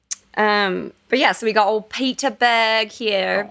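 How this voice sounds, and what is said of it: Put-on British accent. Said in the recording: “He's not British. I don't know why I did that.”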